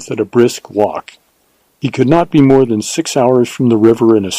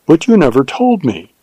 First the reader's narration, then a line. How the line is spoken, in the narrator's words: she exclaimed with wonder and reproach